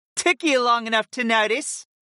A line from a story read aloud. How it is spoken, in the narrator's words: the summoner giggled